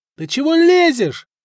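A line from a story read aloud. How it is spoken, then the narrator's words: Group shouting. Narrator (Russian): заорали те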